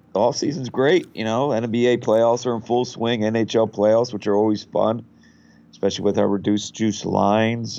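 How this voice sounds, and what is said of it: Slightly raspy voice. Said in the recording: “Got a little head cold here, so my voice is a little raspy”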